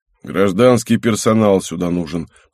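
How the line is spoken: Grumbled. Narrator (Russian): проворчал Антипов

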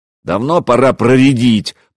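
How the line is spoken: Deep bass voice. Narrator (Russian): пробасил Ульфхам Треска

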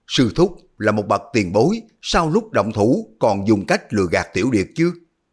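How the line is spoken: Shouted in shock and anger. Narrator (Vietnamese): Hư Trúc vừa kinh hãi vừa tức giận la lên

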